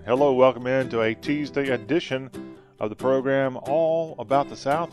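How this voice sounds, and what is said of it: Southern US accent. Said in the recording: “with a southern accent.”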